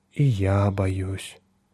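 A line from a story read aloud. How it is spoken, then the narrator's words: Soft. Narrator (Russian): мягко сказала она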